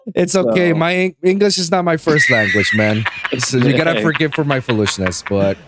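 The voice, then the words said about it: Slight Puerto Rican Spanish accent. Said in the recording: “I was born and raised in Puerto Rico. ... I hear a little bit of an accent.”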